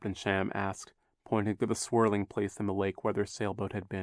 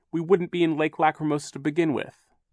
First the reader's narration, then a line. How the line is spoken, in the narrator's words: Violet said fiercely